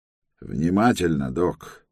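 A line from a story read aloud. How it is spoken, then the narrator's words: Spoken through gritted teeth. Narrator (Russian): проговорил сквозь зубы Деверс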